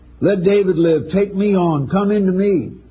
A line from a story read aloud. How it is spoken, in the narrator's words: Desperate to save David's life, Arnie cried out